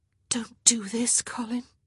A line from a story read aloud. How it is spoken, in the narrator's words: she whispered, hating the pathetic, pleading note of her voice